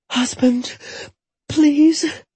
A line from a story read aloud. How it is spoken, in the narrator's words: Jetta whimpered